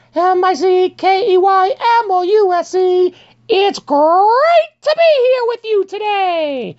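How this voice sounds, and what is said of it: High falsetto voice. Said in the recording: “As a man or a boy with a changing voice, I love my falsetto.”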